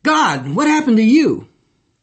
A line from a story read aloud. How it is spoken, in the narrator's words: he exclaimed